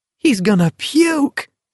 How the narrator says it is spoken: someone cried in an ecstasy of delight

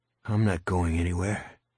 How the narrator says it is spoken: Terry said grimly

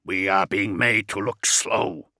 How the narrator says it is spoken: Kjavik hissed

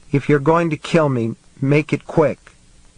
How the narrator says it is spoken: she said in her trembly voice

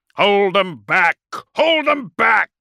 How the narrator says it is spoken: roared Corland

